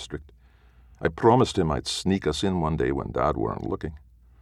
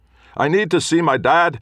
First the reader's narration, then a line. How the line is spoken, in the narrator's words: I said over the roar of the crowd